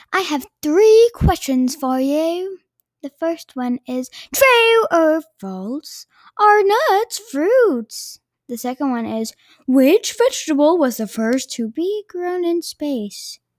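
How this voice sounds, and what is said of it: Unusual put-on accent. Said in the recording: “that's an interesting accent you got there”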